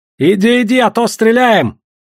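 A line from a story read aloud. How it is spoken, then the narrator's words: Sudden shout. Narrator (Russian): Вдруг крикнули из лавки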